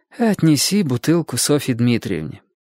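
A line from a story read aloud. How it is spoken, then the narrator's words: Tired voice. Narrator (Russian): она устало сказала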